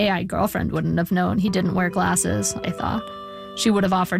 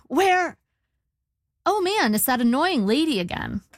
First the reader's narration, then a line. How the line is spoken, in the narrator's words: said brightly, trying to defuse the situation